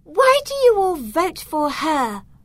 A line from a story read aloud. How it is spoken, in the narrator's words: Candice asked indignantly